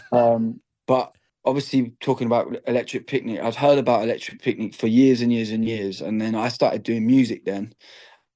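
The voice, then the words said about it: English accent. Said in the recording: “I'm just an Irish man with an English accent.”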